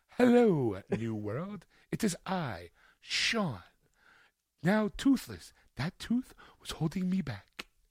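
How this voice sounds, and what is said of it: Exaggerated, over-enunciated proper English. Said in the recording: “talk with an accent ... I've decided to talk like this ... I now enunciate everything. My English is perfect.”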